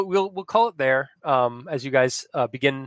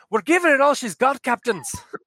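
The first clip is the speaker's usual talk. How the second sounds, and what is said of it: Put-on Scottish accent. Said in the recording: “adopted a Scottish accent ... Why are you talking like that? ... it's similar to my Irish accent”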